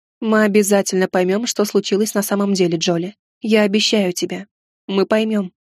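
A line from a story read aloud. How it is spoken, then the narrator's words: Quiet, with a sigh. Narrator (Russian): вздохнула, негромко сказала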